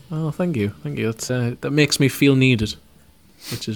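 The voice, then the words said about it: Flat, miserable-sounding monotone voice. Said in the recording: “you don't sound like you're bothered about that whatsoever... He's got a very miserable voice, hasn't he?... It is like talking to Droopy... I am very monotone... It's not monotone. Just put a little bit of sparkle on it.”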